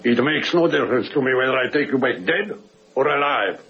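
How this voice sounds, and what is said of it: Heavy Russian or Polish accent. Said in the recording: “With a heavy accent. A Russian or a Polish.”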